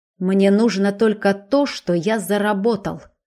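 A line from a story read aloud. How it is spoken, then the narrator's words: Icy tone. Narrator (Russian): ледяным тоном произнес он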